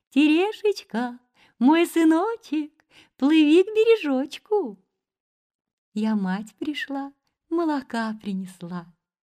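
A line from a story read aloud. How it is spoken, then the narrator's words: Mother's thin high voice. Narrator (Russian): мать, стала звать сына тоненьким голоском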